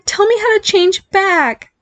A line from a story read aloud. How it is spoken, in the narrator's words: he pleaded